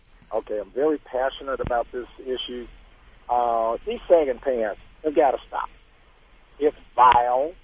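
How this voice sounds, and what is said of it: Hoarse, fading voice. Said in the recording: “I'm losing my voice, kind of hoarse.”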